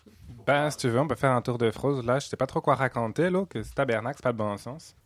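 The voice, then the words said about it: Put-on Québécois French accent. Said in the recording (French): “au naturel et avec un accent québécois”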